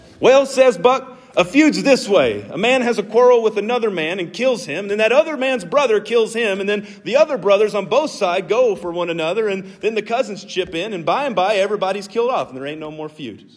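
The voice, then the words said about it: Put-on Southern American accent. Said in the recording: “you got to say it in a southern accent, right?”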